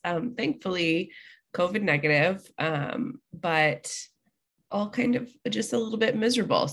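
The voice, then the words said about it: Congested voice. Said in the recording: “I sound really congested ... a very congested ... hopefully, the next episode, I will be a lot less congested and sound a little better”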